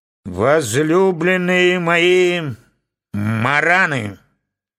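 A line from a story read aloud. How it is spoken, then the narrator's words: Muffled, strong voice. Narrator (Russian): начал глухим и сильным голосом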